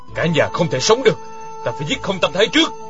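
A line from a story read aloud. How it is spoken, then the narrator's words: Stern voice. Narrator (Vietnamese): Dặn Khuê nghiêm giọng nói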